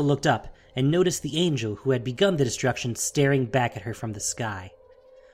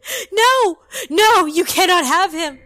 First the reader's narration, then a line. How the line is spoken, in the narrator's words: She began screaming at the angel